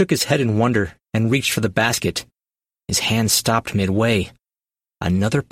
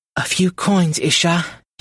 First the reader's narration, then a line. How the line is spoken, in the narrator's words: croaked